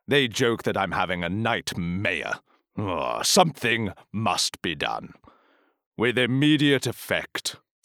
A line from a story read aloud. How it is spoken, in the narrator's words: said the mayor gravely